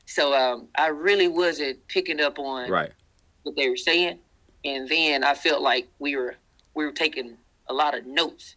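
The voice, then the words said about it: Deep Southern American accent. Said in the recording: “I'm a Southern guy ... you can tell by my accent. I'm deep Southern here.”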